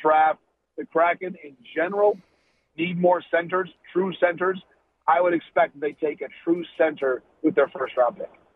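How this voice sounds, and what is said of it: Slightly raspy voice. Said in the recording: “my slightly raspy voice. Allergies are in full effect ... So I'm not full strength voice-wise”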